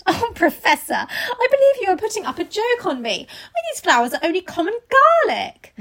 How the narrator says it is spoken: saying with half laughter and half disgust

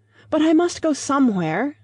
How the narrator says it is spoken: cried

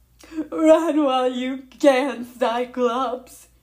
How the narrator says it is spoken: Briarees said miserably

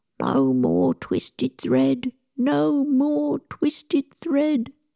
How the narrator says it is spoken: still in his dreams he mumbled

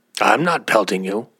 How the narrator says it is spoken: answered the first, growling

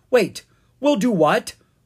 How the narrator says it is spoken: Owen exclaimed

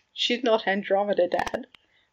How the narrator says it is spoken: Regulus said through a chuckle

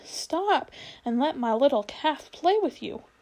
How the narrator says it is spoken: she cried

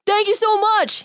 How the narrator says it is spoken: he shouted

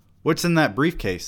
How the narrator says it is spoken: they said

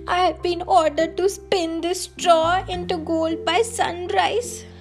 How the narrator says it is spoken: explained between sobs

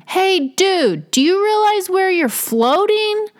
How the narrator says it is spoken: They should have hollered out to him

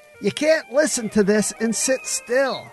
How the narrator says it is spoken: shouted over the music

